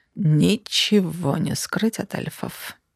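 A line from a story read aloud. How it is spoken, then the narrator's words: Sigh. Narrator (Russian): вздохнул хам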